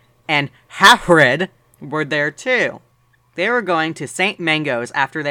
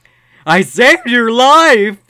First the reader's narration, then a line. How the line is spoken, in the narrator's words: he yelled angrily